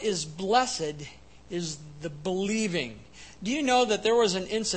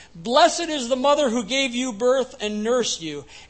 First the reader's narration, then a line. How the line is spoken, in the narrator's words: a woman in the crowd called out